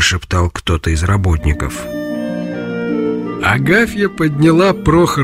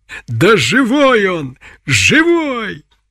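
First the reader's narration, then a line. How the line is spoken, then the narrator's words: Shout of furious delight. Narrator (Russian): крикнула с яростным восторгом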